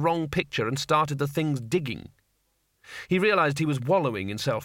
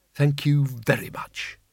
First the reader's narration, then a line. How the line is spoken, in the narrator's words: he said bitterly